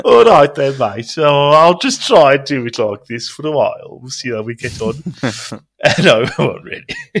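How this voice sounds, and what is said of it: Put-on Midlands English accent. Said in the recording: “Please do all of it in that accent ... I'll do the whole episode as I'm from the Midlands”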